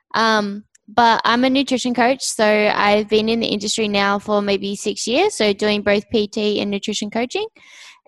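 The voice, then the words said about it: Australian accent. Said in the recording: “you're obviously from Australia ... my accent was deep, it's not. If you go up north, that's where it gets a lot deeper.”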